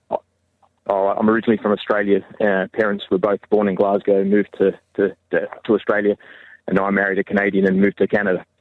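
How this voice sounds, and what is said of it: Australian accent. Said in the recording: “that's an Australian accent, I think.”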